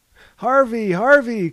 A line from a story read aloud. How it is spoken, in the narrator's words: cried Mahogany